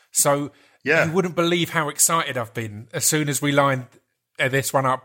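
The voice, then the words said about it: Essex drawl. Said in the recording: “my Essex drawl”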